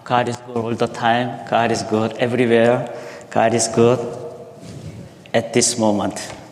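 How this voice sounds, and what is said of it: Strong non-native English accent. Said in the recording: “still I have very strong accent”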